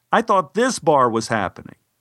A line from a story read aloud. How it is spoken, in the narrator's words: I shouted back